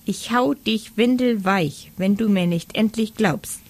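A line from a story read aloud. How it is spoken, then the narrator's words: Squeaked. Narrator (German): piepste er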